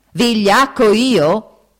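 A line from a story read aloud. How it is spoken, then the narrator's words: Yell. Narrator (Italian): urlò Foffo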